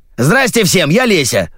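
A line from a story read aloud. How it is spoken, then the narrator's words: Shouting, strange creature. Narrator (Russian): закричало странное создание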